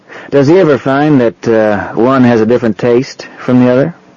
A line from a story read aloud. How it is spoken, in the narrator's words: She chuckled happily